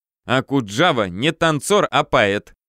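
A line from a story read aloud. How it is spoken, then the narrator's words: Giggling girls. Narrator (Russian): хихикали девки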